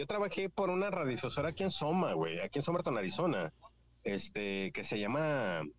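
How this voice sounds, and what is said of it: Radio announcer voice. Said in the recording (Spanish): “tienes voz de locutor, güey ... Tiene la voz de locutor”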